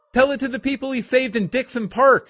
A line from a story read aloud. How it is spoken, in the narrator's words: Cindy yelled